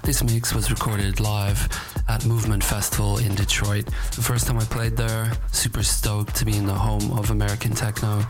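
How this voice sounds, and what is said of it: Worn, road-weary voice. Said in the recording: “as you can hear from my voice, I've been on the road for a couple of weeks”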